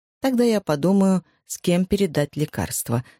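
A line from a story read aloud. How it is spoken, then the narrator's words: Plain. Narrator (Russian): сказал доктор Пеккер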